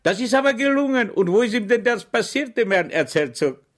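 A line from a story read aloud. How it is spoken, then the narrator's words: Cried out. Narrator (German): schrie Schweig auf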